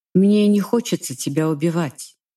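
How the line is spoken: Plain, emperor. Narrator (Russian): говорит император

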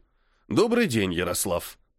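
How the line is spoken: Grumble. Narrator (Russian): проворчал он

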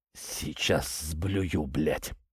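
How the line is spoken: Mumbled. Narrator (Russian): пробормотал Иван

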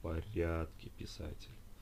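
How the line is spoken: Slurred whisper. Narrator (Russian): Заплетающимся языком прошептала она

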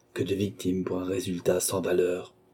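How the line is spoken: Murmured. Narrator (French): murmura-t-il

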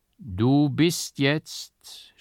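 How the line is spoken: Solemn judge's voice. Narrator (German): sprach der Richter mit feierlich erhabener Stimme

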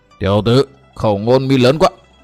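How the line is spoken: Furious, gritted voice. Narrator (Vietnamese): Hỏa vân quái Phật trợn mắt đỏ ngầu, gằn giọng nói

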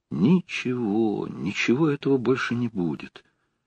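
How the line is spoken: Sad inner repetition. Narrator (Russian): печально повторил про себя Сергей

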